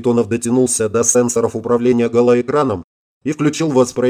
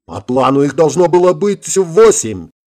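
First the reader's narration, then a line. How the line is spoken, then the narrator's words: Exclaimed. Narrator (Russian): воскликнул Белоцерковский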